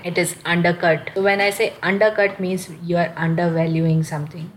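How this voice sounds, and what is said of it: Strained, failing voice. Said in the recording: “here I'm losing my voice”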